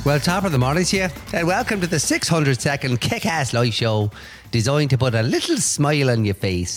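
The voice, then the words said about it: Put-on Irish accent. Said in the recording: “I'm choking on my little Irish accent here.”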